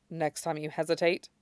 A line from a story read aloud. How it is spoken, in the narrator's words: she says quietly